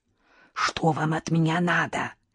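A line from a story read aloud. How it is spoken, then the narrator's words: Whisper. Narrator (Russian): прошептала я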